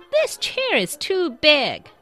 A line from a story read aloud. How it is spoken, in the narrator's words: she exclaimed